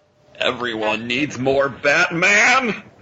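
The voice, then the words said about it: Imitates another person's voice. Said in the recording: “My Adam West impression.”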